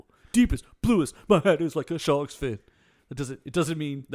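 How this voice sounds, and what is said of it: Imitates another person's voice. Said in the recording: “my LL Cool J impersonation”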